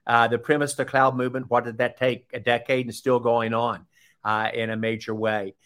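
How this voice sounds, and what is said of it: Southern American accent. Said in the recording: “pardon my Southern accent”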